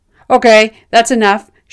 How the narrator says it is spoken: shouted Herr Kannengieser

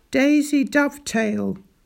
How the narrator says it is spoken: bellowed Daisy

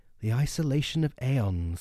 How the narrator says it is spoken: whispered the doctor, overcome with compassion

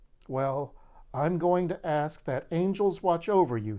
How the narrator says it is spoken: he said

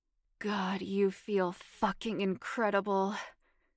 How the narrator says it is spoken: Stephen moaned when he was all the way inside her

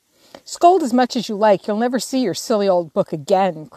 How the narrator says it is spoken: cried Amy, getting excited in her turn

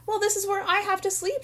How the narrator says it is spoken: shouted Mike

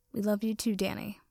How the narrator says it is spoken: Tucker murmured quietly

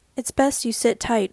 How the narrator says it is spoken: Oren said evenly

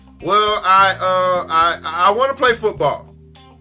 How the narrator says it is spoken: stammered

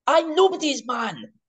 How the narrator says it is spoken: He just suddenly, for whatever reason, shouts

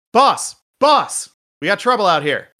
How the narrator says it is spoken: shout inside and say

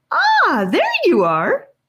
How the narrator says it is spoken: squealed

